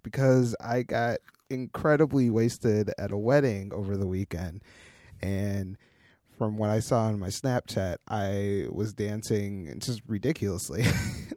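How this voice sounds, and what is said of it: Hoarse voice. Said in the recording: “my voice is super hoarse”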